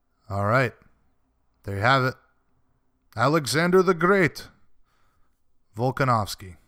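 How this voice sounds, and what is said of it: Put-on Russian accent. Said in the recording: “I don't know why I did a Russian accent there.”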